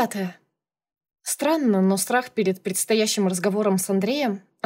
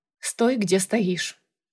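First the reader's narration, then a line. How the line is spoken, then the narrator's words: Cold. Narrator (Russian): сказала я холодно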